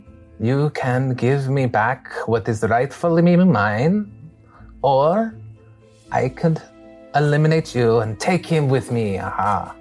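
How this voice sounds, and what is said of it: Bad put-on French accent. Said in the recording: “My French accent is very bad.”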